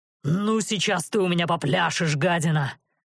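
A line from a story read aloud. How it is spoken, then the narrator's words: Roaring. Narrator (Russian): проревел он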